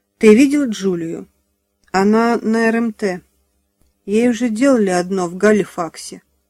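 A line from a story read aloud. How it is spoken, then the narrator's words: Tired. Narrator (Russian): устало сказала Джулия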